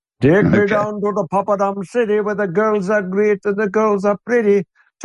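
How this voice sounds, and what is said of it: Sung in put-on Indian accent. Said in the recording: “I was singing this Indian accent”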